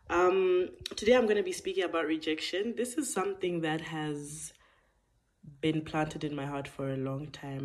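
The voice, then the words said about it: Voice a bit off, sore throat. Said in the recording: “I'm still recovering from that life-changing sore throat, so my voice might sound a bit off”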